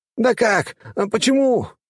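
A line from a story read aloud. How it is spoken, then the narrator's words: Tearful shout. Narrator (Russian): закричал Джованни, и из его глаз брызнули слезы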